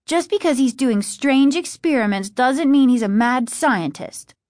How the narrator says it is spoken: Margaret said sharply

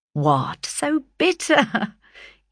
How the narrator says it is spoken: he exclaimed, laughingly

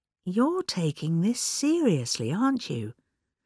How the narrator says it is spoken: he asked gently

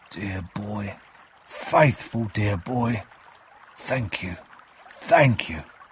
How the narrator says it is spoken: said quietly

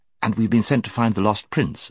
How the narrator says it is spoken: said Jill, who had been anxiously waiting to get into the conversation

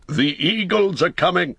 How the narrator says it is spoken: he cried in a loud voice ringing above the din

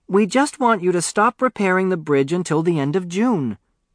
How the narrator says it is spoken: she piped

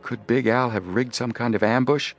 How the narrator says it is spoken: Joe asked in a low, worried voice

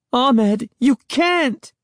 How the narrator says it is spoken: Sari cried

